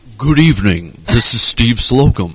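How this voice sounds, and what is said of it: Radio announcer voice. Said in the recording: “This is my radio voice. ... I didn't realize we were doing this in radio voice”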